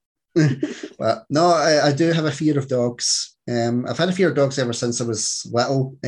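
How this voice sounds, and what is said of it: Scottish accent. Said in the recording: “Scottish accent.”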